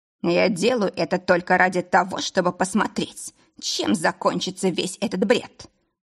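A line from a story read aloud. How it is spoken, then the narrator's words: Hissing. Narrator (Russian): прошипел Лейн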